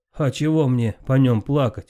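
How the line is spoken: Laughing giantess. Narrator (Russian): засмеялась великанша

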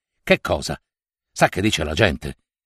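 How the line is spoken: Agitated question. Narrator (Italian): domandò egli con voce alterata

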